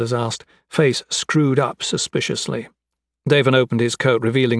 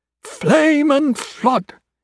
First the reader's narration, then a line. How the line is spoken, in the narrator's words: exclaimed